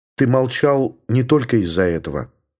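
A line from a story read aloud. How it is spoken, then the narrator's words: Calm. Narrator (Russian): спокойно сказала Елена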